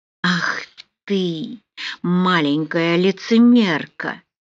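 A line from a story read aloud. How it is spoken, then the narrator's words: Husky sensual voice. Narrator (Russian): Оскорбительные слова были произнесены хриплым чувственным голосом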